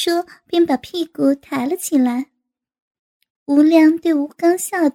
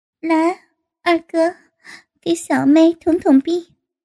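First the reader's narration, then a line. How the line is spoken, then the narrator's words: Laughing. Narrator (Chinese): 吴敏笑道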